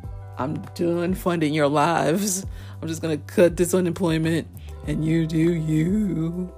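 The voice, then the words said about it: Imitates a hilarious struggle voice. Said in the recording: “In my Paris Milan voice, if you know who Paris Milan is on YouTube, she does this hilarious voice, ... struggle voice that she does”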